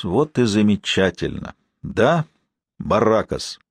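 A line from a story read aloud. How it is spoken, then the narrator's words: Satisfied, almost jubilant. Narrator (Russian): удовлетворенным, почти ликующим тоном, каким он произнес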